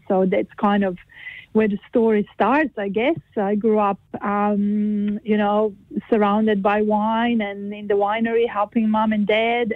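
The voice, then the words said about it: Croatian accent with slight Kiwi tinge. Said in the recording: “I noticed there's an accent there as well ... there is an accent. You can't hide that ... originally come from there ... I have a bit of a kind of a Kiwi accent”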